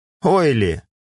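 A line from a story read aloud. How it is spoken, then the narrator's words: Hmphing. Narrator (Russian): хмыкнул Нирок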